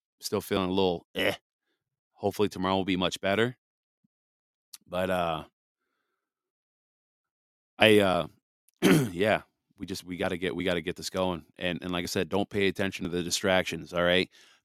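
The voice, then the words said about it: Raspy, slightly hoarse voice. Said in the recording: “sorry for my raspy voice”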